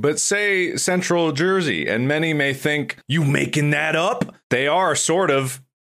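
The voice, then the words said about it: Accurate New Jersey accent. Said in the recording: “This is a New Jersey accent. It's very accurate.”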